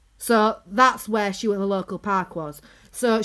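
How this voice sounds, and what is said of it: Usual voice. Nothing is said of it.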